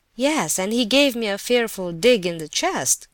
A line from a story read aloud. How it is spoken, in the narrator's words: cried the prince, still laughing